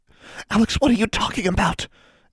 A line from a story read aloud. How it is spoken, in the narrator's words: Anna hissed